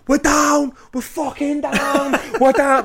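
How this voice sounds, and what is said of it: Screamed line in Irish accent. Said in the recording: “Irish accent ... I'm screaming”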